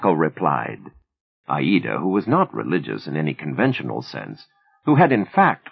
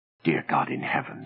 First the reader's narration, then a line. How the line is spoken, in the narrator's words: she murmured